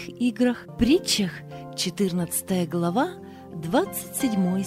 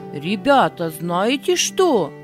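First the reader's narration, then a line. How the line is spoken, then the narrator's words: Commanding voice. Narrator (Russian): сказал повелительным голосом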